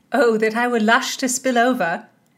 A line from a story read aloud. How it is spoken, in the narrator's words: Constance laughed